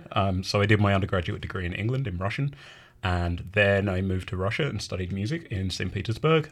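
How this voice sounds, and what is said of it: Non-Canadian foreign accent. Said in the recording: “As you can probably tell from my accent, I am not a native Canadian.”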